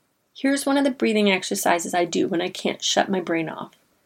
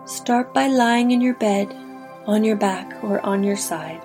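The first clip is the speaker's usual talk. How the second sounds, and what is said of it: Calm meditation teacher voice. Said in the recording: “in my best meditation teacher voice”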